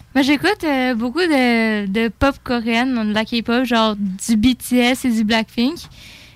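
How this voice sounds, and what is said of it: Slight French accent. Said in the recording (French): “t'as un petit accent ... t'as un petit accent par contre ... on a pris un peu l'accent ... j'avais un petit accent français”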